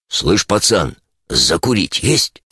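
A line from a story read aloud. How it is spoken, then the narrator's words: Hoarse voice inside head. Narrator (Russian): хриплый голос в мозгу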